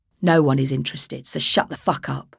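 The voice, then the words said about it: Growled Cockney accent. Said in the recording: “growled in a Cockney accent”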